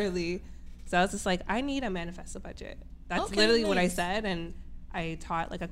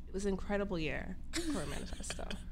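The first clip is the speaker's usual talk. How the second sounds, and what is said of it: Grave bad-news announcer tone. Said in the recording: “That sounds like that bad news voice.”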